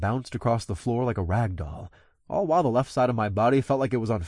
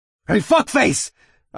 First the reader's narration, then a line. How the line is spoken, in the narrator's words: I roared as I ran